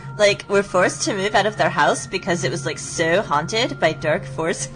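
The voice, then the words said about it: Valley girl voice. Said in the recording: “do my valley girl voice”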